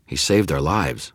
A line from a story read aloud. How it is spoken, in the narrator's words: said